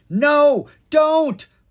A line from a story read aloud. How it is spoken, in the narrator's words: Leon cried